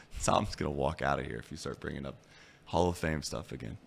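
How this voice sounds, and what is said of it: Raspy voice. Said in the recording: “my raspy voice all day”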